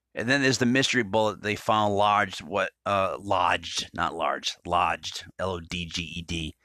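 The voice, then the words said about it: Rhode Island New England accent. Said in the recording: “Rhode Island, New England, Italian accent, just mangle words like that”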